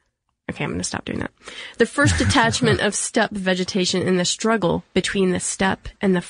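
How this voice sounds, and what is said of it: Usual voice. Nothing is said of it.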